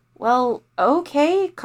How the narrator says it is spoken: Kamalini said hesitantly

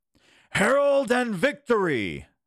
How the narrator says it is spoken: they shouted

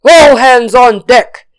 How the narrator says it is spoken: he shouted

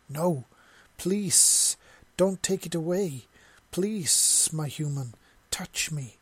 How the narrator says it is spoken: hissed desperately

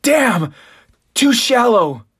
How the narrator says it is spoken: that support team member shouts out

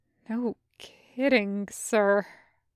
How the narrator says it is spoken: Kix said quietly

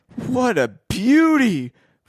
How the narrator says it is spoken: Frank exclaimed

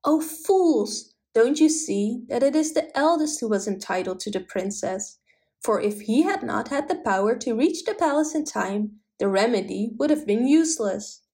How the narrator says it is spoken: the princess suddenly exclaimed

